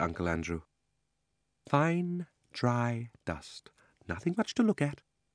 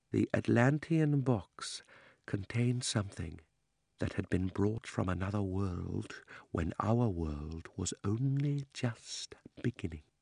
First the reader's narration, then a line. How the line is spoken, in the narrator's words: almost whispered as he said